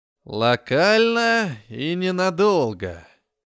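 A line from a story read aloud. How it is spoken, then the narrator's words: Relishing drawl. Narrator (Russian): со смаком протянул гном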